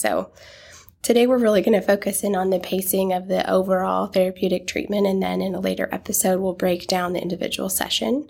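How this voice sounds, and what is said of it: Raspy, strained voice. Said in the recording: “I'm about to lose my voice at any point... you might hear me come in and out and get a little raspy, but excuse my voice.”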